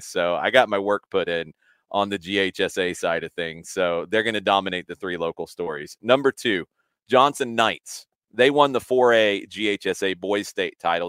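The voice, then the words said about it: Husky, ragged strained voice. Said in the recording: “my voice is a little huskier or more ragged than usual, it's because I did 10 games since last Tuesday”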